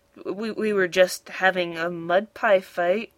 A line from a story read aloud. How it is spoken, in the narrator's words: muttered Muck